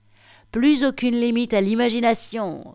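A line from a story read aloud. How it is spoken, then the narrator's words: Exclaimed. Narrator (French): s'écria Charlotte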